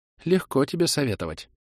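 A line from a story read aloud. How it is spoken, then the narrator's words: Mutter. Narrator (Russian): пробормотала Зара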